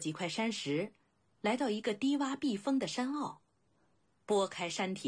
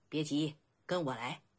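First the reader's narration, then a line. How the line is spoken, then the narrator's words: Laughing. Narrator (Chinese): 黑衣人笑道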